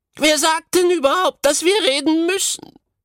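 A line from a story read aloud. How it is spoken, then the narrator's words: Petite goatherd girl calling. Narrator (German): rief die zierliche Ziegenhirtin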